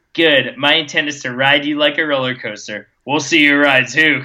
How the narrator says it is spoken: Crow said

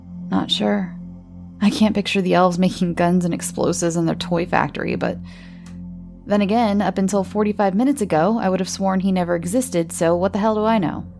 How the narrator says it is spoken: They both had a nervous chuckle

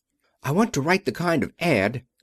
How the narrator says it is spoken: Jock was saying excitedly

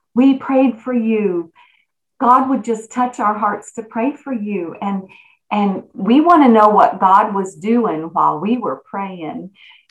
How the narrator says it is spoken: people just so kindly said

